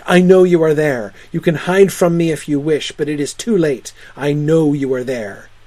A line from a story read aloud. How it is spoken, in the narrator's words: Suddenly Strange raised his head and cried out